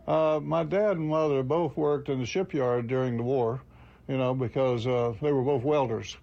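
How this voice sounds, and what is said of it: Florida panhandle redneck Southern accent. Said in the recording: “in the panhandle there, you know, it was kind of redneck area, you know, so that's why the accent that I have. I don't sound like I'm from New York, do I?”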